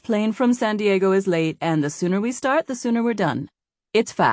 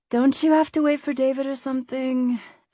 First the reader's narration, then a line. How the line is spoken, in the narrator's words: Ellie said with a groan